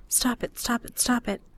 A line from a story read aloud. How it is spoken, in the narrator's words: I whisper to myself